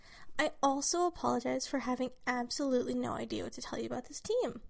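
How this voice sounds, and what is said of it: Sick-sounding voice. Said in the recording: “I'm sick. So apologize for my voice”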